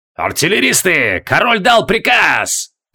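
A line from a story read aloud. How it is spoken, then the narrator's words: Old soldier roaring. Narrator (Russian): проревел седой вояка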